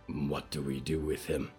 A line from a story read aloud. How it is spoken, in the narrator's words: growled